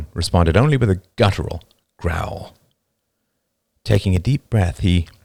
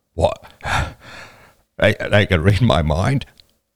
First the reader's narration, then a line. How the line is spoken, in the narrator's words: Roman was panting with stress